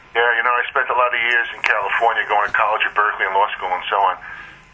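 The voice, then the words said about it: Strong New York accent. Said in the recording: “that New York accent you have. That's such a strong accent.”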